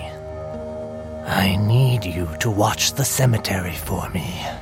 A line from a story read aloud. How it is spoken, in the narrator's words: I said quietly and looked around as if conspiring